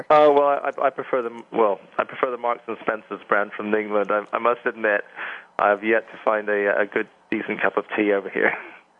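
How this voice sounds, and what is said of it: English accent. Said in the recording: “as you can tell by the accent, I'm from England”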